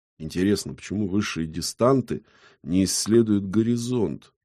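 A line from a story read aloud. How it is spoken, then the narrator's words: Thoughtful drawl. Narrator (Russian): задумчиво протянул кривляка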